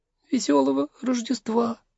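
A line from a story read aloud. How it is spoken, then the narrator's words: Shy child's whisper. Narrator (Russian): застенчиво прошептал малыш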